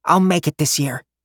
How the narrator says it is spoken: he muttered stubbornly

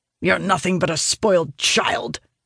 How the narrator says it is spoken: he snarls

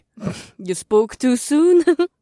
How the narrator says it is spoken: Amber chuckled

